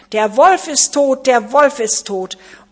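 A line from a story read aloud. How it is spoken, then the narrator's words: Young goats shouting loudly. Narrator (German): die sieben Geißlein riefen laut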